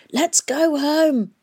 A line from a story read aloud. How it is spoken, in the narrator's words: shouted over the noise